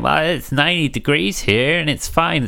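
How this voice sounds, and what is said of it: Put-on American accent. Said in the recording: “Sorry, really sorry for that American accent.”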